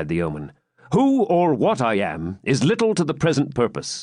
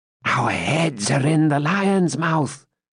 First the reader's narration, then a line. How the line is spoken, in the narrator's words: said Wamba in a whisper to Gurth